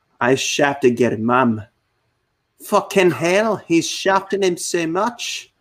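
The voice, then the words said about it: Put-on Irish or Scottish accent. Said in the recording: “when you have an Irish / Scottish accent”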